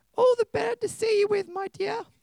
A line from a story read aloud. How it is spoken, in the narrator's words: said the wolf in his granny voice